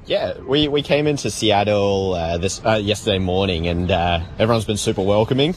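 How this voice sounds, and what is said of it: Australian accent. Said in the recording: “Did you notice the accent? Yes, he is an Aussie.”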